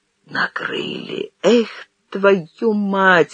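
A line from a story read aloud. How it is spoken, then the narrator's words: Quiet cursing. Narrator (Russian): Андрей Иванович тихо выругался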